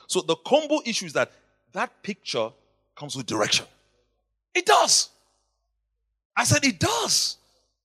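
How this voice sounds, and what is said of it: Nigerian English accent. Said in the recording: “my Nigerian... you can hear my accent”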